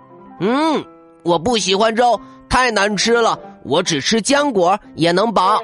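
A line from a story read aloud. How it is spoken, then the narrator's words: Little bear, crying out. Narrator (Chinese): 他叫起来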